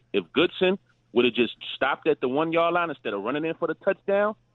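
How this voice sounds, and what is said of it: Brooklyn accent. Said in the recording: “from that accent, he'd been in Brooklyn for a hot minute. That sounds like Brooklyn to me, not Chicago.”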